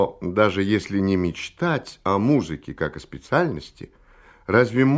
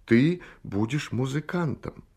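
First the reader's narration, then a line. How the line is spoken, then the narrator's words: Heartfelt, gentle voice. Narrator (Russian): сказал проникновенным и ласковым голосом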